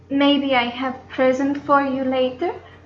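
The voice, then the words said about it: Accented, questioning female voice. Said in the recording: “it's just her accent that makes her sound that way”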